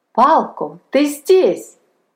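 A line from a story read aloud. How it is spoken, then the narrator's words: Exclaiming. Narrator (Russian): воскликнул Лесинг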